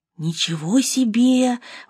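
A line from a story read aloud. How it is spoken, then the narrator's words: Breathed out. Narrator (Russian): выдохнул Чарли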